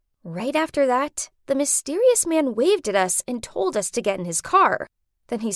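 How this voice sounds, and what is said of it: Usual voice. Nothing is said of it.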